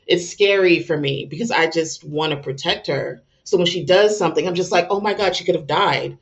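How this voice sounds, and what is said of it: Emotional, near-tearful voice. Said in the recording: “I'm getting emotional.”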